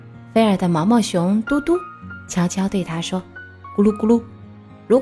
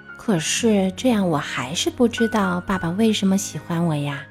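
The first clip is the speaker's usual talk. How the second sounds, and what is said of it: Soft, quiet voice. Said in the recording (Chinese): “小声说”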